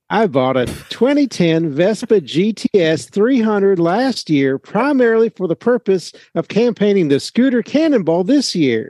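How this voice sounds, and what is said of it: Put-on Southern US accent. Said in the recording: “Are you sure that's an authentic accent? ... Close as I can get. ... Imagine you're in a tobacco field. ... Tobacco-y!”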